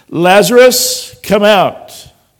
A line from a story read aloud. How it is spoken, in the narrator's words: he cried out in a loud voice